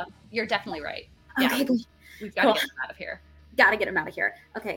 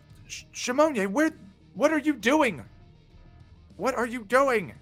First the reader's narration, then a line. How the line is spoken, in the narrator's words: This woman starts yelling to Shimonia